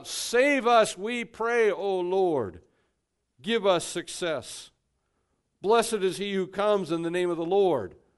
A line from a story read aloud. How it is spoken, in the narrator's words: shouting out